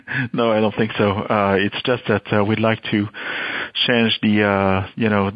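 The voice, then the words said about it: French accent. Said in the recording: “I can hear in your accent, and as we discussed, I know you're from France”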